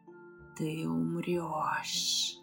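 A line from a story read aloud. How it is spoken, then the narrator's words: Hissing dragon. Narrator (Russian): прошипел дракон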